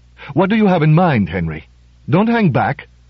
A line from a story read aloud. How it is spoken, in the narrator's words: said Gonzalo impatiently